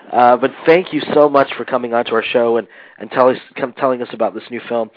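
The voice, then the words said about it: Congested voice, occasional coughing. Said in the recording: “I have a cold. I'm coughing here and there.”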